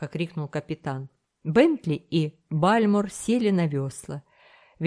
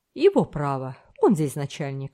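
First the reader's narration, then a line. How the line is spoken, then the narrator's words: Calm reply. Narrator (Russian): спокойно ответил Смуга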